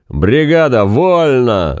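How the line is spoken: Sudden booming shout. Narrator (Russian): заорал вдруг зычным голосом

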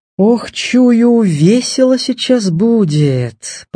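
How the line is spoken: Drawling. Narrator (Russian): протянул Степа Жарков

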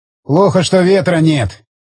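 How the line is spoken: Displeased grumble. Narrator (Russian): недовольно проворчал он

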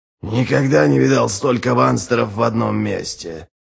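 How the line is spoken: Muttered. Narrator (Russian): пробормотал Ральф

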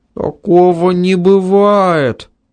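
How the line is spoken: Frightened. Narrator (Russian): Испуганно сказал Ванька

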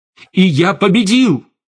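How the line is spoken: Shouted. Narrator (Russian): выкрикнул Штейн

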